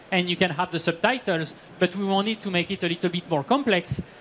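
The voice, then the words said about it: English with a French accent. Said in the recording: “I can speak in English, even with my French accent.”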